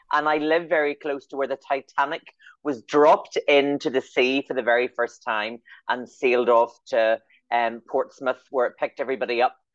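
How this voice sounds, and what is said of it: Northern Irish Belfast accent. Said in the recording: “I'm beaming in from Belfast, in case anybody's wondering what the accent is ... I'm from Northern Ireland.”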